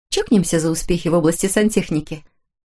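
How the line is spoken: Cheerful suggestion. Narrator (Russian): весело предложила Хлоя

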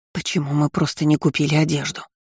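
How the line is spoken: Aunt's hiss. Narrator (Russian): прошипела тетушка

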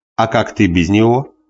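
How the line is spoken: Joking tone. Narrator (Russian): спросил он тоже шутливым тоном

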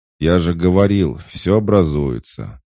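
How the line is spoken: Marquis's deep bass voice. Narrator (Russian): пробасил маркиз

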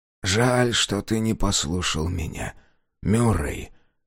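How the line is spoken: Quiet, farmer speaking. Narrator (Russian): тихо проговорил фармер

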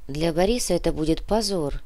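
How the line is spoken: Muttering. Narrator (Russian): пробормотала Зина

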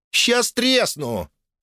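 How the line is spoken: Habitual snap. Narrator (Russian): по привычке огрызнулась Эмилия

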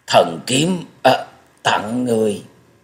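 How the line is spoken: Faltering, word by word. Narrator (Vietnamese): Thất Độc Thần Kiếm ... buông ra một hơi thở dài lắp bắp từng tiếng một nói

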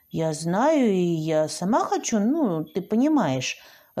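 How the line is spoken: Timid reply. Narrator (Russian): робко ответила я

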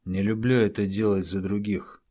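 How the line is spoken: Gloomy admission. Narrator (Russian): мрачно признался Брюлей

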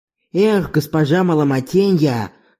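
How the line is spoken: Low muffled growl. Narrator (Russian): глухо прорычала тетя Ленью

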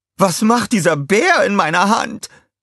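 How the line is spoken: Screaming. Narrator (German): schrie sie

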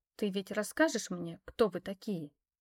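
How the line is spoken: Quiet question. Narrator (Russian): спросила тихо

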